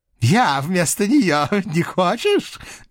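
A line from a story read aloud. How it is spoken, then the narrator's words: Mad laughter. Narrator (Russian): безумно рассмеялся он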